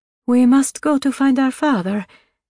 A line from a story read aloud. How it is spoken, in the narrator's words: Her voice quaking for the first time, the little girl said